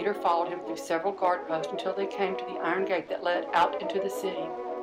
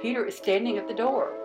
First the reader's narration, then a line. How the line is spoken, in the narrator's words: yelled